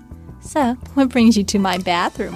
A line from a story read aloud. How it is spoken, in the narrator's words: giggled